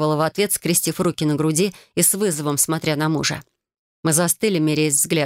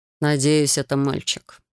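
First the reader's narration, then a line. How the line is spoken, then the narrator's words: Gloomy, defeated. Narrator (Russian): мрачно произнес Калеб, признавая поражение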